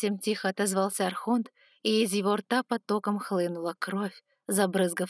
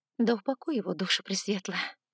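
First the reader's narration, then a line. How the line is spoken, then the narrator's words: Muttering. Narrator (Russian): пробормотала я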